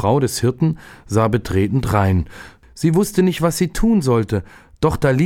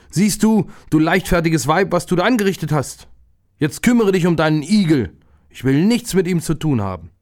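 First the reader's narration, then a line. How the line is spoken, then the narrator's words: Angry shout. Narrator (German): ärgerte sich der Viehhirt und rief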